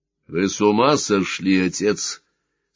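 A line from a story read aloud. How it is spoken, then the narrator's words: Almost rude question. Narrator (Russian): спросил Сварог почти грубо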